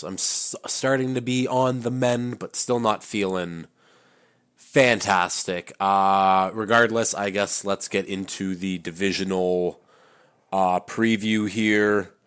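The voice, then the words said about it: Sick-sounding voice. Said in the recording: “I'm a little bit more sick now. I think it's probably hear it in my voice.”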